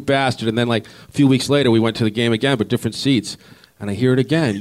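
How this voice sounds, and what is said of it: Massachusetts accent. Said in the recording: “Where'd you grow up, though, in Massachusetts? Because you got that accent.”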